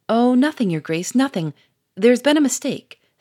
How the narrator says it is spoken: stammered Bonavent

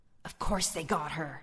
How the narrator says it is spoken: another head hissed

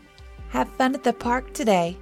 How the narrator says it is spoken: the boy chirped

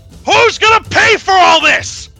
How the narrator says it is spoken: he shouts

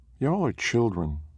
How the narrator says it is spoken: Mara sighed

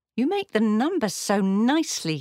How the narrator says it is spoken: exclaimed

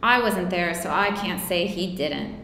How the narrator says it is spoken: the misfit said

